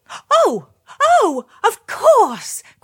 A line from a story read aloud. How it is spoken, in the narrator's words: cried the princess